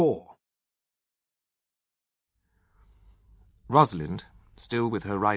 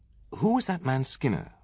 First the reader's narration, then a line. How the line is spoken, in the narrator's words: Rosalind and I inquired, anxiously and simultaneously